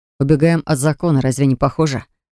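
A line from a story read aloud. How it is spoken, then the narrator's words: Snorting remark. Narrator (Russian): Хмыкнул Джар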